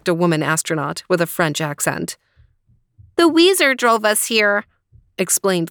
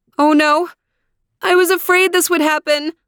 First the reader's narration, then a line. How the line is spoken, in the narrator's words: cried Mommy